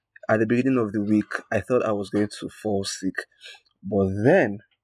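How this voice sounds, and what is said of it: Tired, weary-sounding voice. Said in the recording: “if you can hear the tiredness in my voice, you are 100% correct. I am tired, extremely tired.”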